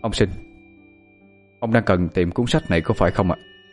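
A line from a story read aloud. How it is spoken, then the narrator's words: Stern. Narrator (Vietnamese): cậu nghiêm giọng nói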